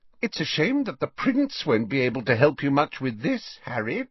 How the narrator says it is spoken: she said brightly

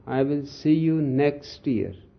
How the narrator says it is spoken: said Dr

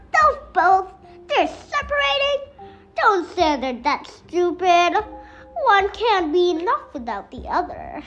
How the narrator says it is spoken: she cackled

